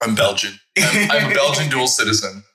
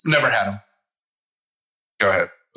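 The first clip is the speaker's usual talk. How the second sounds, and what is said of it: Sarcastic deadpan delivery. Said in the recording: “he's being sarcastic.”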